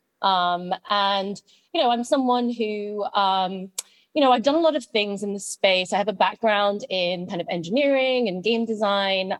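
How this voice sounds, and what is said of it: British accent. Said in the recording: “as you can tell from my accent, I grew up in the UK”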